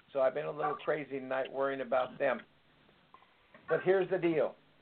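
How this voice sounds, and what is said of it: Slightly hoarse voice. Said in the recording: “I'm a little hoarse. ... I've been on the phone all afternoon”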